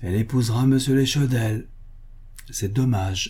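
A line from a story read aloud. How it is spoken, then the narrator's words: Melancholy sigh. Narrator (French): soupira-t-il mélancoliquement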